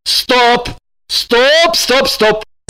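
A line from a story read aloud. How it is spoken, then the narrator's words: Shouting. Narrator (Russian): закричал он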